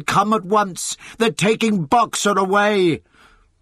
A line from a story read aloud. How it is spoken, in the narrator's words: he shouted